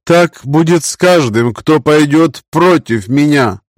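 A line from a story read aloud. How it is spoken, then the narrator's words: Loud. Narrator (Russian): громко произнесла Зиера, обращаясь к немногочисленным зевакам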